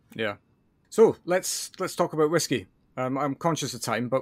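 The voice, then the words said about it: Scottish accent. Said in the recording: “you can hear my accent ... as a Scotsman”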